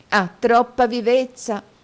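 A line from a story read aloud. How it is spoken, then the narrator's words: Exclaimed. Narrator (Italian): esclamò la signorina Lacrivi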